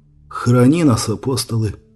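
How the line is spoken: Muttering. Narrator (Russian): пробормотал Брайан

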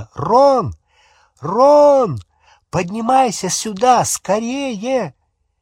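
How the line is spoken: Shout. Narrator (Russian): крикнула

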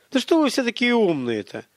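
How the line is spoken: Exasperated exclamation. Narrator (Russian): В сердцах воскликнул Михаил

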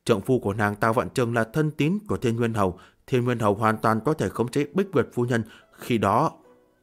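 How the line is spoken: Quiet reminder. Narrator (Vietnamese): Từ Đường Nhân nhỏ giọng nhắc nhở

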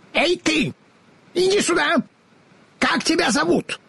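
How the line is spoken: Shouted. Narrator (Russian): Она крикнула

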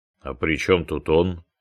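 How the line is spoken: Gloomy question. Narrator (Russian): мрачно спросил Басенко

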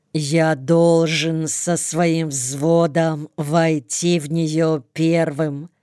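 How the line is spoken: Slow, each word clipped. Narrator (Russian): медленно, отчеканивая каждое слово, говорит

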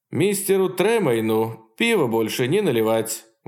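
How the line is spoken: Laughing explanation. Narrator (Russian): Маккеун со смехом пояснил

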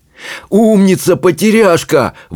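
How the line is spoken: Exclaimed. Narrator (Russian): воскликнул он

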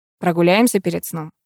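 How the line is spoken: Plain. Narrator (Russian): спросил он

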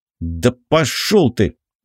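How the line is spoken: Snapping back. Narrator (Russian): огрызнулся я

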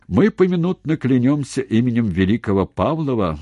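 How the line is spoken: Loud and bitter. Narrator (Russian): громко и горько сказал Устименко

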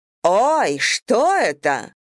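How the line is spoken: Frightened deep steam engine. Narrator (Russian): испуганно пробасил паровик

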